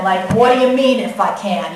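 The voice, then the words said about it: Put-on New York accent. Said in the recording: “I don't picture that in a Galilean accent. I picture that in a New York accent.”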